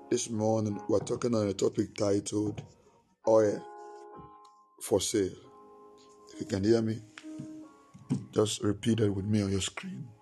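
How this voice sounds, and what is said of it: Strained, nearly lost voice. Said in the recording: “Bear with my voice, please. ... My voice is gone. I'm trying as much as I can.”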